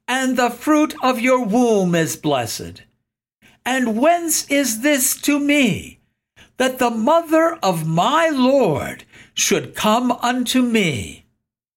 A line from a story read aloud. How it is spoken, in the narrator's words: Elizabeth cried out